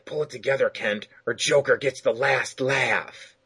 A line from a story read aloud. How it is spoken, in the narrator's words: he whispers